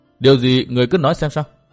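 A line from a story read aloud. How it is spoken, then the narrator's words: Raised voice. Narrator (Vietnamese): Tư Mã Minh cao giọng nói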